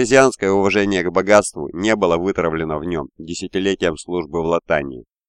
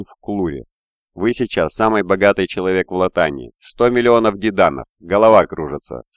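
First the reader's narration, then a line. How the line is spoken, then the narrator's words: Plain. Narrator (Russian): сказал Вудвард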